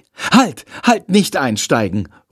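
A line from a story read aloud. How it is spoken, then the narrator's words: Call. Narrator (German): ruft er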